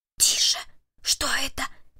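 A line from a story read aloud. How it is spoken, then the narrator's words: Whisper. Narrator (Russian): прошептал Перри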